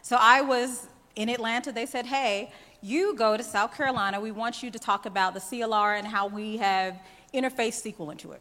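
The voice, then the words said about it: Southern American drawl. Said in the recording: “I am from the South. I live in Atlanta ... you've probably heard my drawl.”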